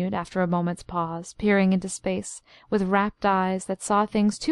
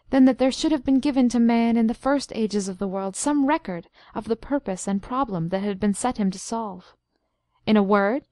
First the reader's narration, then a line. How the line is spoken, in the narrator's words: he cried